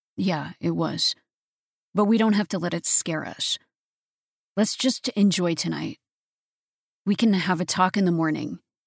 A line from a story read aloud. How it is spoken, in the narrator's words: said